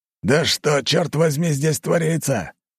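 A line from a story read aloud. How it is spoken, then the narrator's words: Furious shout. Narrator (Russian): Снова закричал он, яростно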